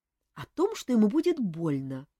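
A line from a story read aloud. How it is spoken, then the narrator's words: Quiet. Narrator (Russian): тихо сказала девушка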